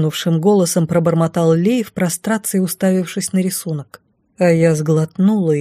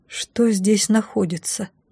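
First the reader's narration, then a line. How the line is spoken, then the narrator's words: Quiet question. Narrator (Russian): тихо спросила я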